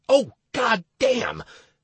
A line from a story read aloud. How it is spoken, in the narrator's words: I blurted out when I realized the scale of the tragedy